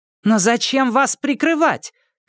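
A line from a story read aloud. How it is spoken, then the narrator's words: Shouted. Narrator (Russian): крикнула Анжелина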